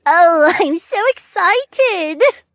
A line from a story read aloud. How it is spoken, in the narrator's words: Josephine giggled